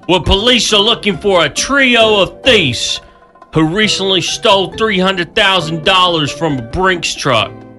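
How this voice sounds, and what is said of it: Put-on Brooklyn accent. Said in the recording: “I need to talk about this in my Brooklyn accent.”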